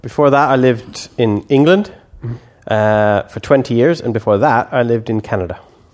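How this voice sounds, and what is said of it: Mixed English and Canadian accent. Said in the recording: “my accent is all over the place ... You sound more like England-y than Canada-y.”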